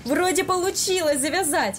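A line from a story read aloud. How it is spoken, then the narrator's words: Joyful exclamation. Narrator (Russian): Наконец радостно воскликнул Илья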